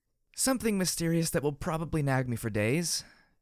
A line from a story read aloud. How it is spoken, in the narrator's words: I said with a sigh